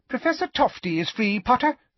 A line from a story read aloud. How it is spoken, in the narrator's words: squeaked Professor Flitwick